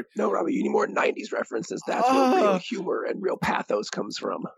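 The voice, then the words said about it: Sinister villain character voice. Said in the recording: “that Darth Sidious impression”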